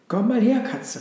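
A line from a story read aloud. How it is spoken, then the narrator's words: Excited dog calling. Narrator (German): rief der Hund aufgeregt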